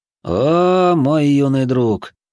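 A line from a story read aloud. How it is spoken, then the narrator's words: Drawling. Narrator (Russian): протянул Гарри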